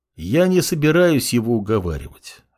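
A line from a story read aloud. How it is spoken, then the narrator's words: Even, level tone. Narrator (Russian): ровным тоном ответил молодой бог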